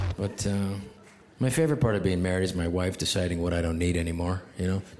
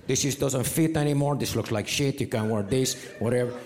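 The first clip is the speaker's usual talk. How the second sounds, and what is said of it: Put-on Mexican accent. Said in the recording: “She's not Mexican. It's just more fun to do that voice.”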